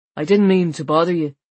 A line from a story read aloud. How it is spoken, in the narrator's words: he said